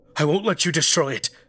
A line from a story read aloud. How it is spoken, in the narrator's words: Charles cried out